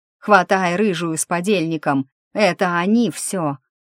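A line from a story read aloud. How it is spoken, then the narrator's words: Roar. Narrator (Russian): Кто-то проревел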